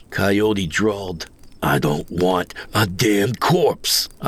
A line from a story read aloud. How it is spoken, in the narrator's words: I growled, feeling the bile churn and my hackles rise